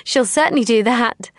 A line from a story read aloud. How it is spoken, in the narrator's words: I laughed